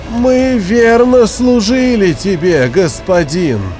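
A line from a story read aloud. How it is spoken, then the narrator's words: Exhausted moan. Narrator (Russian): Простонал Арк, еле державшийся на ногах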